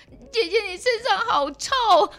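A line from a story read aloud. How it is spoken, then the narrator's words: Sudden blurted remark. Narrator (Chinese): 他突然又冒出一句说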